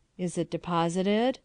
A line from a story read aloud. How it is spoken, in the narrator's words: I asked in a hollow, vibrating voice